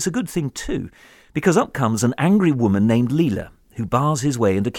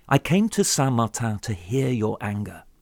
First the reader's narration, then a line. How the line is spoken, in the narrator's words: he never stops repeating just as calmly, just as patiently